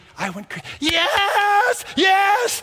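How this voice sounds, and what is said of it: Excited yelling. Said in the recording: “I'm yelling.”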